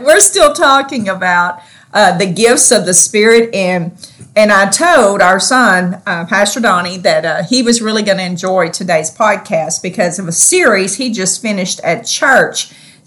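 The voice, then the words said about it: Southern US country accent. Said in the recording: “how um, country sounding ... we were ... We are Southerners to the core ... our speech betrays us ... our wonderful Southern accent”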